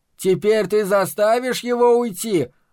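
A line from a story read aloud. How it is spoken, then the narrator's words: Shouted out. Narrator (Russian): выкрикнул толстый Чарли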